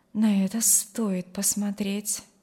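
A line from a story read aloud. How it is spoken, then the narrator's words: Quiet. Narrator (Russian): добавила она тихо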